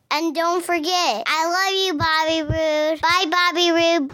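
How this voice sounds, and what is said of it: Old lady character voice. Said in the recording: “That's the old lady voice again.”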